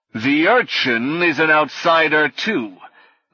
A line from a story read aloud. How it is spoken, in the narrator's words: the knight said through the lion's snarling muzzle